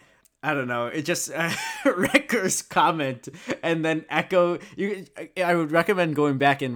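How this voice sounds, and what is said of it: Usual voice. Nothing is said of it.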